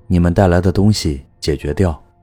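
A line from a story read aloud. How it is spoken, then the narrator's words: Flat interjection. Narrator (Chinese): 杨黑淡淡的插了嘴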